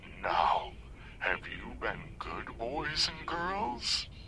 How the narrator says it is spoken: the voice cackled

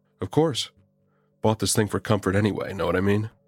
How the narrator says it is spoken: I chuckled

